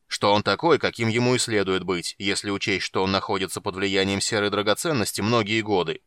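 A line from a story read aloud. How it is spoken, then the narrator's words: Irritated dwarf. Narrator (Russian): сказал гном, раздраженно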